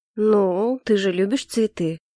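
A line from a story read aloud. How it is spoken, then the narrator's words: Low deep voice. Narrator (Russian): произнес низким, глубоким голосом Калипсо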